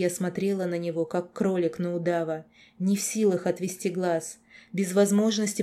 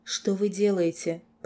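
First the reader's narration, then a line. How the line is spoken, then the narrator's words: Whisper. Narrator (Russian): прошептала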